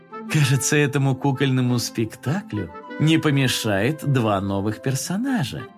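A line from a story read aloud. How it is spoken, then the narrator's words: Cheerful remark. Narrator (Russian): весело заметила мама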